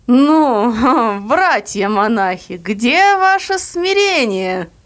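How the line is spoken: Resonant with a chuckle. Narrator (Russian): кто-то сзади сказал звучно с хохотком

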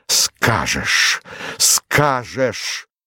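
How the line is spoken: Strained pained voice. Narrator (Russian): повторил это слово сдавленным голосом, точно оно вырвалось у него с болью и усилием

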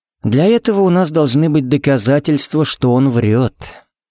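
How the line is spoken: Gentle reply. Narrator (Russian): мягко ответил ей Джаред

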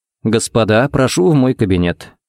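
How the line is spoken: Calm invitation. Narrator (Russian): пригласил спокойно

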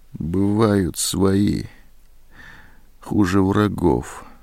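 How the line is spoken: Quiet. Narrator (Russian): тихо сказала Зоська

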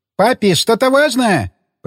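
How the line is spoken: Shouting. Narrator (Russian): прокричала Расита

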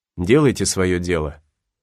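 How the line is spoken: Dry, bitter reply. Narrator (Russian): Гатлинг, этот непонятный человек, сухо и с горечью ответил ему

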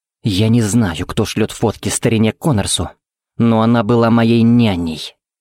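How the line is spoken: Through gritted teeth. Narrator (Russian): процедил Тикс

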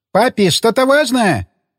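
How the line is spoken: Shouting. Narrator (Russian): прокричала Росита

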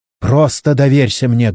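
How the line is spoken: Barking shout. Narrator (Russian): гаркнула на него Чен

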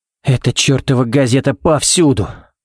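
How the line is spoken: Sighing. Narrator (Russian): вздохнул Баллок

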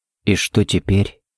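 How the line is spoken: Barely audible question. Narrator (Russian): едва слышно спросил Харри

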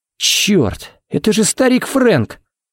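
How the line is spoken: Breathless gasp. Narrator (Russian): Выдохнул Харри

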